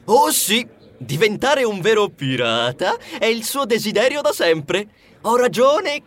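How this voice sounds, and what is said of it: Usual voice. Nothing is said of it.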